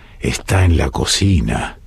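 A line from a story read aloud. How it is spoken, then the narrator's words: Whispered in ear. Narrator (Spanish): le susurró en la oreja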